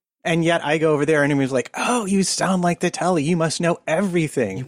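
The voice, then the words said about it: American accent. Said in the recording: “fancy American voice”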